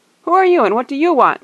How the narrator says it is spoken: they shouted, leaping to their feet

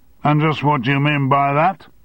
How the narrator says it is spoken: shouted Armstrong

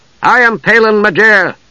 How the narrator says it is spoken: Palin called loudly

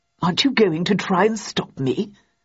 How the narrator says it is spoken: asked Hobbs in a puzzled tone

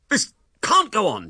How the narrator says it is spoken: he cried

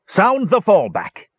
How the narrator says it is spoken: shouted

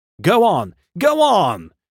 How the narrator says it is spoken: shouted angry voices

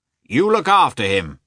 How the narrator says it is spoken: shouted the commander to Yashvin

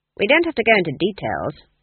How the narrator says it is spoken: Granny said icily

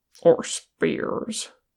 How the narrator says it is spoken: Gimli grunted

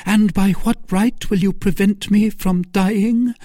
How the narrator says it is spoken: exclaimed

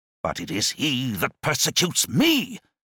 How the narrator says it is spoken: exclaimed Antipas

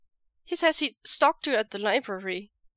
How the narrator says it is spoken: Wei Ying blurts out

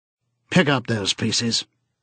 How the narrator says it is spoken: said sharply

